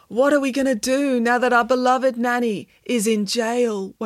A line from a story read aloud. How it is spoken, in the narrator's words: wailed Michael